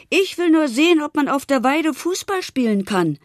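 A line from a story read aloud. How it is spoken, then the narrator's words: Shouting back while running. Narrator (German): schrie im Laufen zurück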